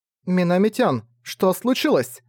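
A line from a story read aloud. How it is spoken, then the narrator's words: Shouted. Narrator (Russian): прокричала Миюки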